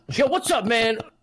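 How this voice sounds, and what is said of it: Tyler One impression. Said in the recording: “nice Tyler One impression... pretend I'm Goku in the back”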